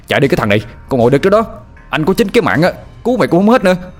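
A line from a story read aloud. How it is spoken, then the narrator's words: Strained shout. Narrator (Vietnamese): Anh vừa nặng cổ lại, vừa hét lên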